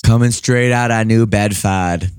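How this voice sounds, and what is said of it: Attempted Boston accent. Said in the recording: “I'm not very good at the Boston accent.”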